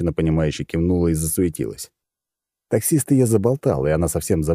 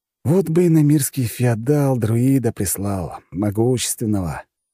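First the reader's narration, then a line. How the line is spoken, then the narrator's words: Dreamy drawl. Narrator (Russian): мечтательно протянул я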